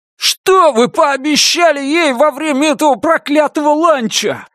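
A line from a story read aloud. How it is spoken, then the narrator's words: Young man shouting. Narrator (Russian): закричал юноша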